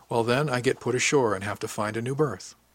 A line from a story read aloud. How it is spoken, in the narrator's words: told him calmly